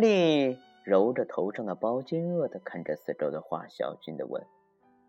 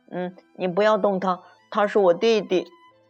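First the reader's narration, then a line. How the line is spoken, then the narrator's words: Urgent shout. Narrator (Chinese): 派瑞冲过来叫道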